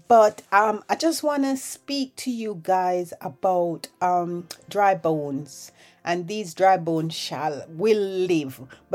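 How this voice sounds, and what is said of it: Low, sick-sounding voice. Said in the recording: “my voice sounds a bit low today. I am recovering from the flu”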